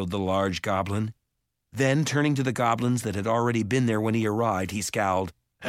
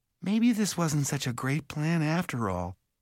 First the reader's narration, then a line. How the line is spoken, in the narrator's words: Mallory said softly